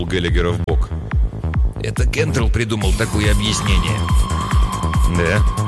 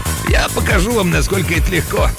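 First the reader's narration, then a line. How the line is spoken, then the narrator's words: Old man giggling. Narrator (Russian): Дед, хихикая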